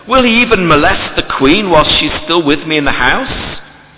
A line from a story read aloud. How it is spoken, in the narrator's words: The king exclaims